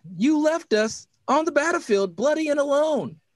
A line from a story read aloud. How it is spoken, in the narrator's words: he exclaimed